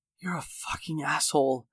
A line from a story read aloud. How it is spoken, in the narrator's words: Sarah whispered